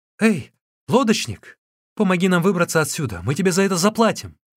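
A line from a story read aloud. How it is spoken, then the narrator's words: Shouted. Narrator (Russian): Сунцзян закричал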